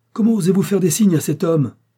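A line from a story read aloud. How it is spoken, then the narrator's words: Exclaimed by a lawyer. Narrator (French): s'écria l'avocat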